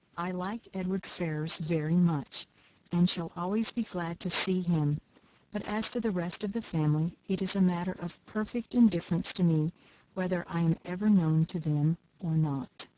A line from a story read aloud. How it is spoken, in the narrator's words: saying, as calmly as she could